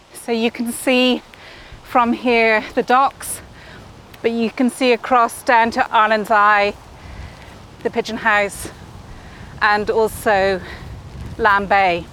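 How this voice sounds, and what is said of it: Out of breath, panting while talking. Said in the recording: “looking out over a vast, slightly uphill expanse, that's why I'm out of breath”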